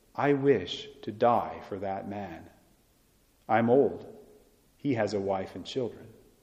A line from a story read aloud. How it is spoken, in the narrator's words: Father Kolbe calmly said